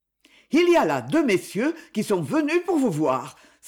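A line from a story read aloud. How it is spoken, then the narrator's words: Breathless exclamation. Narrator (French): s'écria-t-elle tout essoufflée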